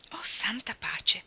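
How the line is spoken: Stunned murmur. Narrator (Italian): mormorò allibita

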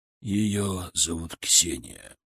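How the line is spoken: Muffled, hollow voice. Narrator (Russian): сказал Александр IV глухим голосом

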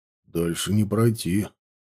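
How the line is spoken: Quiet. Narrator (Russian): тихо сказал он

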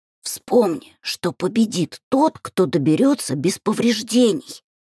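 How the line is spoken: Hoarse wheeze, then coughing. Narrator (Russian): Просипела я и сразу закашлялась

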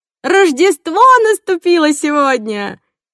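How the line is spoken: Aunt's shout. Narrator (Russian): кричала тетушка Уинни

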